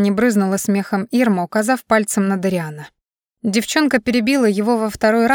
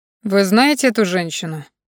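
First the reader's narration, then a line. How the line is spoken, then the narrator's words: Man asking calmly. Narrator (Russian): спокойно поинтересовался мужчина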